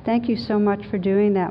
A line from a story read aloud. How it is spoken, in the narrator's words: Mark's mother said